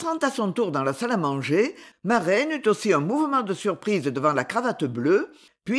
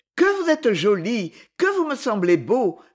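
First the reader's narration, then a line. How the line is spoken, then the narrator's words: Cheerful. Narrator (French): fit-elle gaiement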